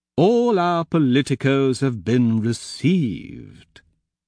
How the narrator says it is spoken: Pliny says slowly

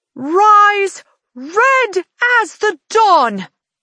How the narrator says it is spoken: she shouts

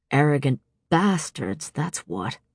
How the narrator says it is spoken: he muttered

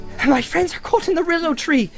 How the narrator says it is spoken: cried Frodo breathlessly

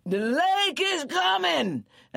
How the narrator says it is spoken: They cried out as best they could

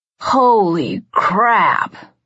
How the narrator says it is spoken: Liam croaked

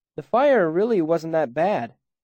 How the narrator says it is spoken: I called out to Denna

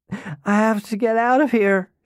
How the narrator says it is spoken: she cried

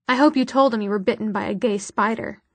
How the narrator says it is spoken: said

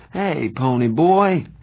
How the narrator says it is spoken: he said sleepily

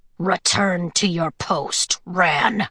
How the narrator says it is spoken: Wolf said with a snarl

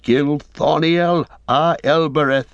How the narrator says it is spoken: Sam cried

